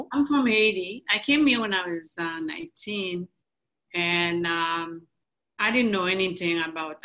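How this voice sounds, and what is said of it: Noticeable foreign accent. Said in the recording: “I can hear the accent, which is beautiful.”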